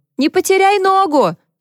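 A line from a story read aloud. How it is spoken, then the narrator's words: Shouted after someone. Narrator (Russian): крикнула она вслед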